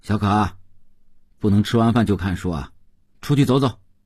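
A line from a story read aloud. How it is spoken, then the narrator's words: Calling out. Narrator (Chinese): 邓文轩叫道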